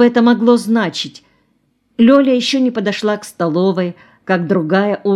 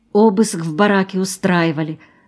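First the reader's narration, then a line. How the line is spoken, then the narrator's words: Whisper. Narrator (Russian): шепнула она Лёле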